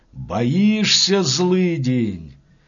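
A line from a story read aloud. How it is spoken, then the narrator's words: Thin gloating shout. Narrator (Russian): возница кричать тонким злорадным голосом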